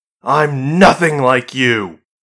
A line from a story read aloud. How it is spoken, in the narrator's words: Marie snapped